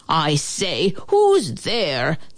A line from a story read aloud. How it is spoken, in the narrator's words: the man bellowed out